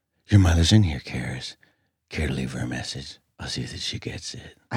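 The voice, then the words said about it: Exorcist demon voice impression. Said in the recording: “I had a little bit of sickness, and I'm giving the exorcist voice.”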